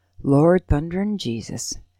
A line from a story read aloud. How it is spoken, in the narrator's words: Ole says under his breath